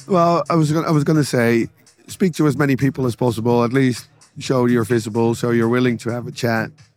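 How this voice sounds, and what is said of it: Hoarse, rusty, worn-out voice. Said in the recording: “tell my voice is going down. I'm a bit more rusty than normal.”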